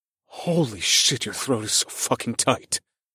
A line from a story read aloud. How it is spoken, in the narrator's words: gasped